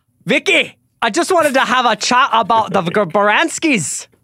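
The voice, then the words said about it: Put-on Irish accent. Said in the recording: “Do you want to say it in an Irish accent? ... Wow. That's Irish.”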